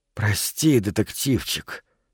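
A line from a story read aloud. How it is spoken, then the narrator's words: Exhaled. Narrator (Russian): выдохнул Эндрю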